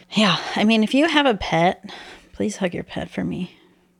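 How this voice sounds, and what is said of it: Sad-sounding voice. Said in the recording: “It sounded sad. ... You could hear the sadness in my voice.”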